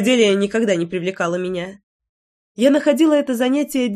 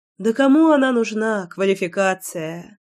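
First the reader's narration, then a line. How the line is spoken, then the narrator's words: Sigh. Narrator (Russian): Вздохнула я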